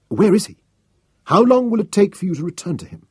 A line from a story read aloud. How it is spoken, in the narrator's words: demanded eagerly